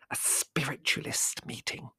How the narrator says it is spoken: she hissed

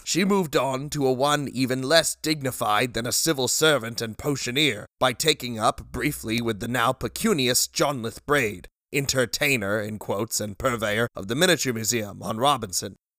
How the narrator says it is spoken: said, loudly and anxiously cutting him off

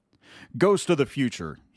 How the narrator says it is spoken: he exclaimed

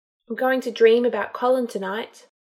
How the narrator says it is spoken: said sadly

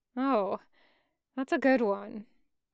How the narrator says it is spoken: Bismuth murmured

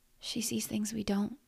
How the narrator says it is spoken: whispered Amanda

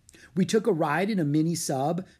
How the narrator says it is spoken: said Annie

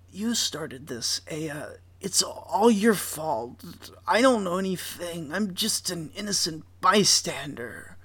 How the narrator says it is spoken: his voice loses all volume, and he says

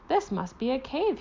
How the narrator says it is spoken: he said, sighing happily

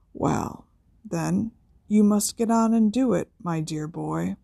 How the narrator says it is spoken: said Dumbledore softly

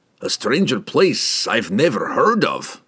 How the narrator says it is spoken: grumbled Brunner, uncomfortable since the underbridge, but resigned to the necessity of speaking with the Harples

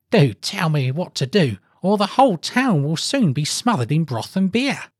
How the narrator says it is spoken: cried the rich man to the poor man

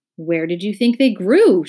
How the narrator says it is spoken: shouted the Earl irritably

